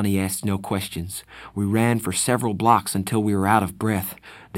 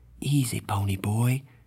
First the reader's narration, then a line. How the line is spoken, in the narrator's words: said softly